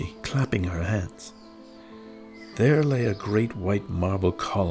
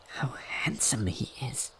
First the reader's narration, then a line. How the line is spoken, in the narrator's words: whispered Thumbelina to the swallow